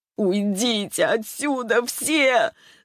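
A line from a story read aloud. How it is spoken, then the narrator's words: Frantic scream. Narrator (Russian): закричала Ярослава не своим голосом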